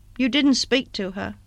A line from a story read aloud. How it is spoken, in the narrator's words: Broughton said in a colourless voice, half question, half reproach